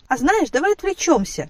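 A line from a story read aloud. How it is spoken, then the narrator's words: Forced cheerfulness. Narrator (Russian): неестественно радостным голосом предложила она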